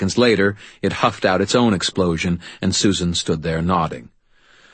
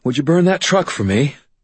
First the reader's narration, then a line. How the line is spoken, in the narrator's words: said, panting as we reached the top